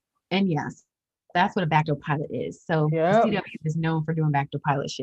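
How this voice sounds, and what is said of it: Usual voice. Nothing is said of it.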